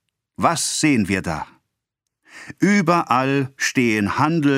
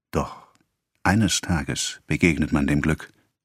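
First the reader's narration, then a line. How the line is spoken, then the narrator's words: Whispered. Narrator (German): flüsterte er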